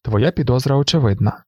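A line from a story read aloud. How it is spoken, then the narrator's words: Suddenly cold voice. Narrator (Ukrainian): сказав герцог ураз схололим голосом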